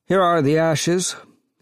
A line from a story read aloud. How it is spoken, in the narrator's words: the official said, looking sleepily